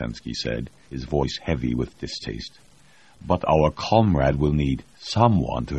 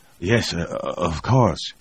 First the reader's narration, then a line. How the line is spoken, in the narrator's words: he said, desperately trying to calm himself